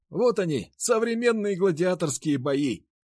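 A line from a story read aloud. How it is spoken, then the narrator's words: Shouting into ear. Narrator (Russian): прокричал мне на ухо Никита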